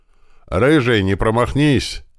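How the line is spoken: Shouting from below. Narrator (Russian): орал снизу механик-водитель, забыв про субординацию

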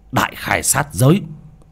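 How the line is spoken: Fierce shout. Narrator (Vietnamese): Bác cổ quát lên một tiếng

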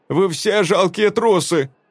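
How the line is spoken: Shout. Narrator (Russian): крикнула Вильда

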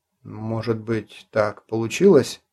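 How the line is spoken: Uncertain suggestion. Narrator (Russian): неуверенно предположил Клим

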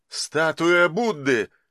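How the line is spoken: Exclaiming. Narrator (Russian): воскликнул Андрей

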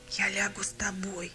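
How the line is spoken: Quiet. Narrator (Russian): тихо сказал голос Степана

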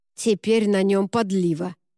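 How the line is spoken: Grumbled. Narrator (Russian): проворчал Рене

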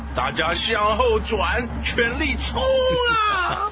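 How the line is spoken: Loud shouting. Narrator (Chinese): 大声喊着

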